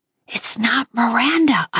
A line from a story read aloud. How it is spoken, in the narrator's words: I whispered